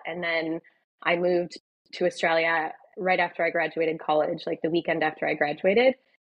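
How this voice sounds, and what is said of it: American accent. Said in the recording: “I've been here for about 15 years, but I haven't been able to shake my accent.”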